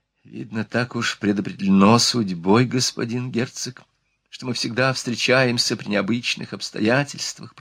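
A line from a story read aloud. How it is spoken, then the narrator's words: Whispered. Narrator (Russian): прошептала она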